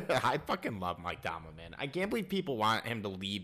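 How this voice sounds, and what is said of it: Usual voice. Nothing is said of it.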